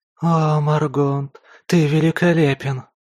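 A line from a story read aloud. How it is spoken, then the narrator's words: Moaning in ear. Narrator (Russian): простонал мне в ухо знакомый голос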